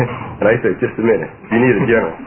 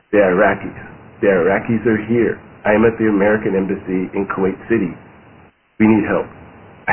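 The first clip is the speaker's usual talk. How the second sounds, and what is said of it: Slow speech, heavy Arabic accent. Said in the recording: “he slows down in a heavy Arabic accent”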